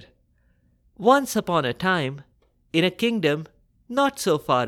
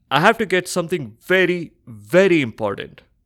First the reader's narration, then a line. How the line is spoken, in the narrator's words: Bhoj exclaimed